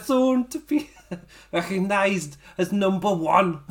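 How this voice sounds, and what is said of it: Attempted Scouse accent. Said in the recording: “do a Scouse accent for Zach Gibson ... I haven't got a throat anymore ... I gave it a go.”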